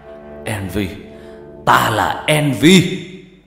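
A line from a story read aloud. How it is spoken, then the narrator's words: Yelling. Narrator (Vietnamese): Trọng gào lên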